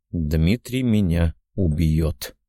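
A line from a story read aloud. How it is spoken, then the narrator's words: Quiet muttering. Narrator (Russian): тихо произнес себе под нос Валера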